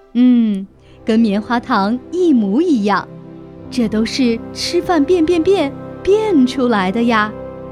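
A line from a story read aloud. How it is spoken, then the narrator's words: Satisfied, mysterious smile. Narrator (Chinese): 猫妈妈满意地露出一个神秘的微笑说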